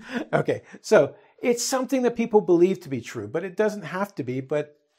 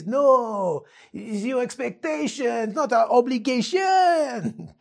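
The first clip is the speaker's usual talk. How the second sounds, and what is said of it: Put-on French accent. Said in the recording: “That's my best French accent.”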